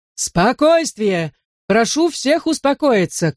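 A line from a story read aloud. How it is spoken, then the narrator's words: Shouting. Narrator (Russian): кричал мэр Своуп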